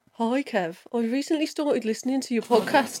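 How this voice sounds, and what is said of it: Put-on Birmingham accent. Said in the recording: “read that top paragraph out as well in a Birmingham accent. So this is ... official voice”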